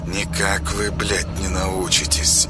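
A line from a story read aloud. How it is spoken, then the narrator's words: Contemptuous angry mutter through teeth. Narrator (Russian): сплюнул в сердцах, презрительно процедил сквозь зубы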